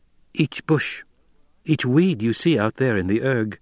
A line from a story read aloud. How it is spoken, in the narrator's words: she said